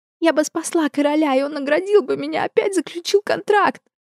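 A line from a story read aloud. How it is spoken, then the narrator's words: Sobbing. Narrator (Russian): рыдала Розалинда, наконец осознав, во что вляпалась и втянула близких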